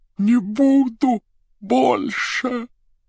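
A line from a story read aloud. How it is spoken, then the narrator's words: Hoarse rasp. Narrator (Russian): Прохрипела голова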